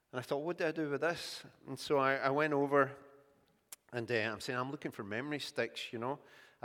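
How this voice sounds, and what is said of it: Scottish accent. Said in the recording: “your accent's strange... I'm from Scotland”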